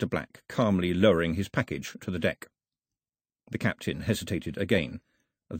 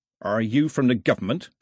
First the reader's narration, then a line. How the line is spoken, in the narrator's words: the captain snapped